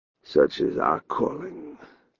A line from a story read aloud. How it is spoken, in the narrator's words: he said more quietly